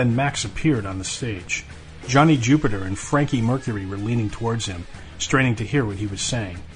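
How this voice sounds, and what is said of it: Usual voice. Nothing is said of it.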